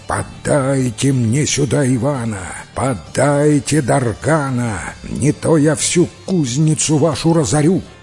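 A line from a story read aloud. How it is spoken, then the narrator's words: Terrifying villainess shout. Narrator (Russian): злодейка на крыше сидит и страшным голосом кричит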